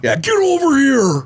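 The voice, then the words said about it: Imitates video game character Scorpion's shout. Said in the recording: “Scorpion ... I felt like Scorpion was great”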